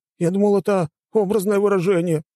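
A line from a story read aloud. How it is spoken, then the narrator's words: Exclaiming. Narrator (Russian): воскликнул Биба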